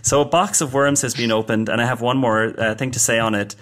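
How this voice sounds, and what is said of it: Irish accent. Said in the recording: “By the way, I'm Irish, in case you're confused about my accent.”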